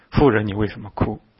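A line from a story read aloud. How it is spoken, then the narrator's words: Plain. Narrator (Chinese): 说话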